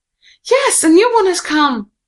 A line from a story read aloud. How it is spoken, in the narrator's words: The other children shouted with joy